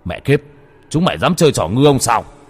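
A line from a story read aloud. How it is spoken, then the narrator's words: Shouting. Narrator (Vietnamese): Đồ Lương hét lên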